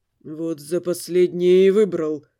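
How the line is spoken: Muttered through teeth. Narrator (Russian): сквозь зубы пробормотал Дамиан

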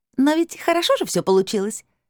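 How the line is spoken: Giggling higher glassy voice. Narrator (Russian): хихикнул второй голос, чуть повыше и с красивым стеклянным отливом

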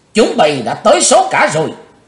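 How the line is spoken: Loud shout. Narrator (Vietnamese): chàng ... hét lớn

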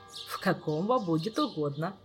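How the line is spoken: Laughing, priest. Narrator (Russian): рассмеялся священник

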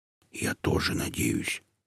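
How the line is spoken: Quiet reply, wood spirit. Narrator (Russian): так же тихо отозвался леший

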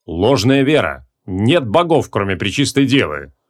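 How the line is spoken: Sharp interruption. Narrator (Russian): резко перебил ее паладин

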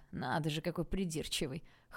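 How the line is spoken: Chuckling. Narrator (Russian): хохотнул Стас

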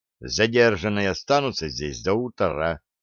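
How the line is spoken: Dry official reply. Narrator (Russian): сухо ответил офицер

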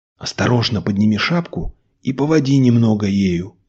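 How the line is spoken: Whisper. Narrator (Russian): прошептал Николай

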